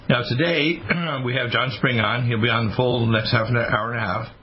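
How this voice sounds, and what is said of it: Hoarse, strained voice. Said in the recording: “after having my little bout of laryngitis... even when my laryngitis is better”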